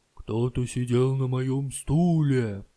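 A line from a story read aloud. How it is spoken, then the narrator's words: Terrible bear roar. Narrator (Russian): Заревел страшным голосом папа-медведь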